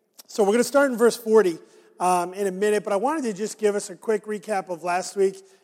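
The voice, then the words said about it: Raspy hoarse voice. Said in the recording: “my voice is not always raspy, because I know that it is anyway, but a little more raspy today”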